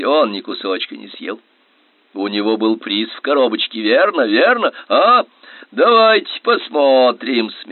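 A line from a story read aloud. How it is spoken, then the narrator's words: Laughing. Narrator (Russian): смеялся господин Каркаран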